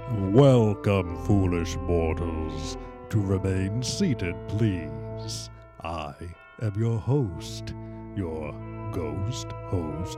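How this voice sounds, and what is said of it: Spooky ghost host impression. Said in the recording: “I think through the entire podcast, I'm going to speak like this... it's not a good impression... as Paul Frees, the ghost host in the Haunted Mansion”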